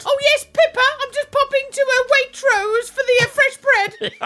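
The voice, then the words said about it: Put-on posh English accent. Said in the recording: “Can you do an impression of a posh person?”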